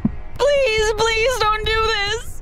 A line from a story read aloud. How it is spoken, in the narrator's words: I screamed, kicking and thrashing against the walls of the box